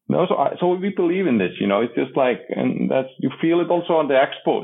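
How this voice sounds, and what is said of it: Icelandic accent. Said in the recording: “my Icelandic accent ... oh, you really are from Iceland ... quite obvious”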